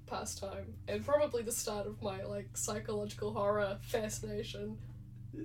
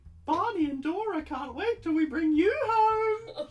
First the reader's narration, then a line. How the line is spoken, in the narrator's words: She squeals